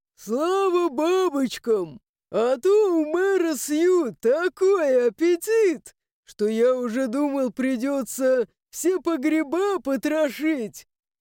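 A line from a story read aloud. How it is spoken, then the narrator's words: Loud laughter. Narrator (Russian): И захохотал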